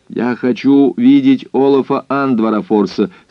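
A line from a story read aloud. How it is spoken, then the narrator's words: Very loud. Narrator (Russian): сказал он очень громко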